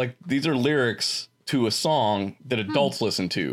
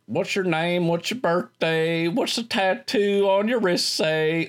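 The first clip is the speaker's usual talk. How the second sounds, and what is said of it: Put-on country twang. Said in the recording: “I'm going to do my country twang. This is what the guy sounds like, swear to God.”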